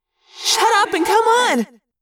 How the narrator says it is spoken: I cried

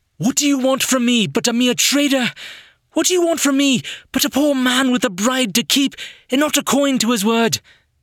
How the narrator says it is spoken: Through his coughing, he cried out

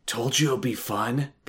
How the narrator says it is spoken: Brian whispered into Adam's ear

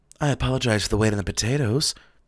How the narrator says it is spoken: the caterer said with a sigh

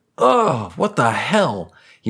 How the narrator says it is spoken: He exclaimed

